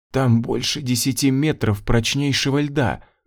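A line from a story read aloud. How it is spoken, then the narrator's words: Breathless whisper. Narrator (Russian): прошептала тяжело дышащая Ванда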